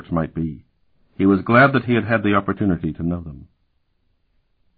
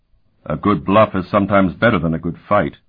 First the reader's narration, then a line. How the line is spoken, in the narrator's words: Euleth growled